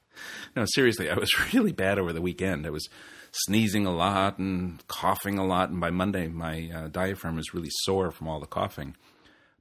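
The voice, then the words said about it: Croaky, snuffly, slightly chesty voice. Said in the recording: “I still am a little bit chesty and a bit snuffly, and my voice is a bit croaky”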